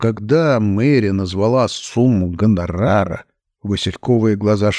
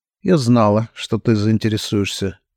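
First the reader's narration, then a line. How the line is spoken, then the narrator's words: Icy tone. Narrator (Russian): ледяным тоном сказала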